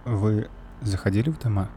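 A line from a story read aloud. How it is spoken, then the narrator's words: Near whisper. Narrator (Russian): Почти прошептал он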